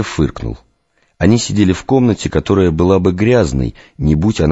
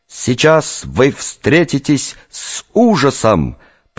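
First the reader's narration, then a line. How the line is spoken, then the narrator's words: Drawn-out shout, young man. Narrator (Russian): протяжно закричал парень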